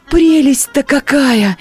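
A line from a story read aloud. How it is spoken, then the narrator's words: Delighted exclamation. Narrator (Russian): воскликнула Катерина Львовна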